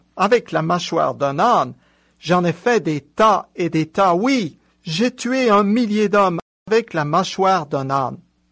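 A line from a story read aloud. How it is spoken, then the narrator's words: Exclaimed. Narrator (French): il s'écria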